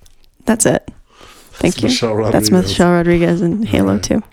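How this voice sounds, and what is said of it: Usual voice. Nothing is said of it.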